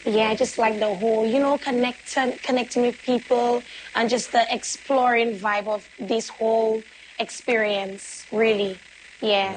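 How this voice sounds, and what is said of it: Hoarse, strained voice. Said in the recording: “As you can hear, my voice is a little bit hoarse. That's because I've been performing.”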